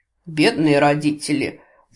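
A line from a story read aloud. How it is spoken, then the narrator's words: Mock-pitying sigh. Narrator (Russian): с притворной жалостью вздохнул Гворий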